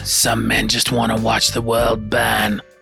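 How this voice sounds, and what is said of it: Bad Christian Bale-as-Michael Caine impression. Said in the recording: “my bad impression of Christian Bale doing his bad impression of Michael Caine”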